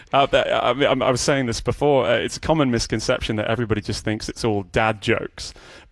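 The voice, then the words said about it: British accent. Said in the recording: “where we hear your accent”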